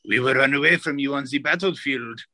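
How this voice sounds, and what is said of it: Exaggerated fake French accent, spooky. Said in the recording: “limited fake French ... the French accent ... That was kind of like halfway between like French and like a Halloween decoration that you put up on the porch, like with a wah ha ha ha ha sort of thing.”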